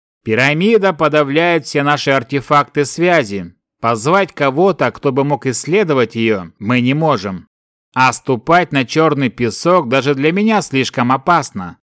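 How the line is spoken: Plain. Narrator (Russian): сказал Сильф

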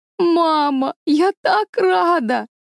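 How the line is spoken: Sobbing with joy. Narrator (Russian): всхлипывала Мэри Голд

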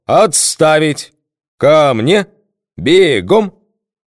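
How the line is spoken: Thunderous commanding bark. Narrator (Russian): громовым командным голосом рявкнул

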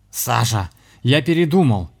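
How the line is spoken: Shouting guest. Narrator (Russian): закричал гость

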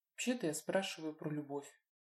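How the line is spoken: Quiet. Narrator (Russian): тихо проговорила Лина

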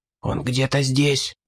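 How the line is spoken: Whisper. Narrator (Russian): прошептал Ридли

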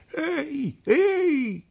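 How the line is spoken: Shouting. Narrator (Italian): gridò

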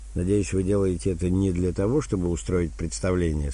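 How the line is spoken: Plain. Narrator (Russian): спросил полковник

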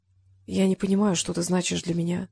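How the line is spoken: Whispered. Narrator (Russian): прошептала

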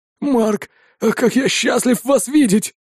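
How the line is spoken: Relieved exhale. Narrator (Russian): С облегчением выдохнул он

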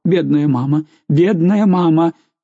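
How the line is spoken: Moaning. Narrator (Russian): Караван, стоя перед нею на коленях, стонал

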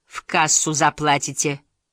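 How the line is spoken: Stern warning. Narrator (Russian): предупредила строго

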